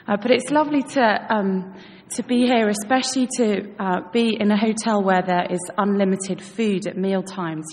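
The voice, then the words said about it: British English accent. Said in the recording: “my mother is British, so hence the accent.”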